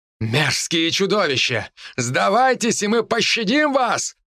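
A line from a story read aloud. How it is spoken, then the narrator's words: Shouting emperor. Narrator (Russian): прокричал император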